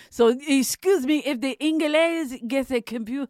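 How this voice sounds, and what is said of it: Put-on Polish accent. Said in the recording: “my accent's pretty terrible... That was a solid Polish accent... I thought you were from the old country for a moment there”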